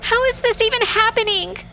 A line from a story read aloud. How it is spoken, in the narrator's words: Marisol screamed